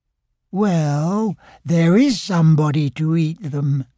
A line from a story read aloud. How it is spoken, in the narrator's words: murmured Pooh